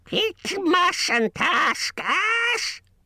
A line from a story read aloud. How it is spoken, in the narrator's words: shrieked Gollum